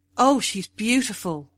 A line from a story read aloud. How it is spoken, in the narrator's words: cried Moon